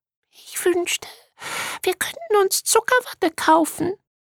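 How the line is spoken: Sighed, little starfish. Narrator (German): seufzte der kleine Seestern

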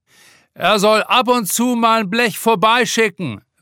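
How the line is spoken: Calling out. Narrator (German): ruft ein anderer

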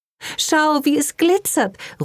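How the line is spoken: Excited exclamation. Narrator (German): ruft begeistert aus

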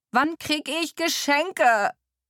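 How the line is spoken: Shriek. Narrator (German): kreischt Emily Virginia hinter mir

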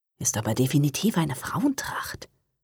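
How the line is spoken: Whisper. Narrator (German): flüsterte Johanna

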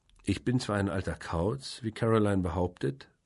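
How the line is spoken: Plain. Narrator (German): sagte ich

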